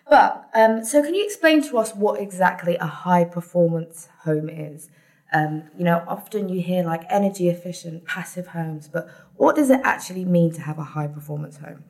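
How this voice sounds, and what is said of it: British accent. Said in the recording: “As you can tell by my accent, I'm from the UK”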